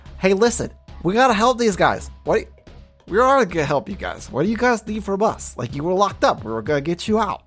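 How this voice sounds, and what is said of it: Nerdy character voice. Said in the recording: “It's very difficult for me to do this voice because I don't sound like a nerd at all.”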